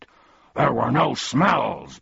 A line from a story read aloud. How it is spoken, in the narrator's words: barked Tuck